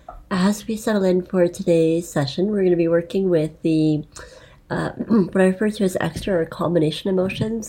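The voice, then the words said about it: Scratchy, slightly quiet voice. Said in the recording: “My voice is really scratchy today, so I might be a little bit quieter than usual.”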